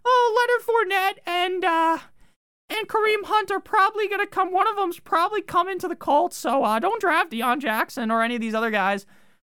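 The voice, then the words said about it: Mocking put-on voice. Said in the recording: “I'm going to do my voice that I make fun of people with”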